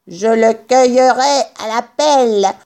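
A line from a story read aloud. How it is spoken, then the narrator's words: Barking. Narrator (French): aboyait Buns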